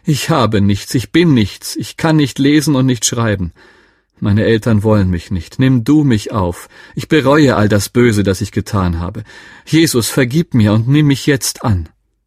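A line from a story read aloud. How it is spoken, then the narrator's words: Called out. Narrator (German): rief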